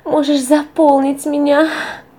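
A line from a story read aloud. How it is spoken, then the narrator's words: Muffled cry near climax. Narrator (Russian): Лиза тоже почувствовала приближение оргазма, то тут же крикнула, упираясь лицом в диван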